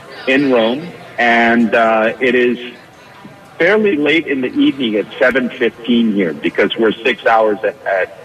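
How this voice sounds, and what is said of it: American accent. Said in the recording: “such a perfect American accent”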